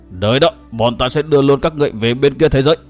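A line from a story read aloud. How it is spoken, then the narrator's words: Old man's shrill shout. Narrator (Vietnamese): Tên ma đầu già nhất bỗng cất giọng quát lên the thế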